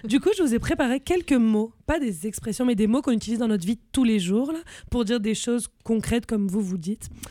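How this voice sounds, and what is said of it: Marseille southern French accent. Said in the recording (French): “je viens du sud, Marseille. Le soleil, on a un accent... Vous l'entendez... mon plus bel accent marseillais”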